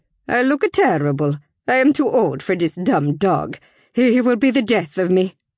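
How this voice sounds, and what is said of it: Thick Italian accent. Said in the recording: “Italian accent is as thick as her famous sauce”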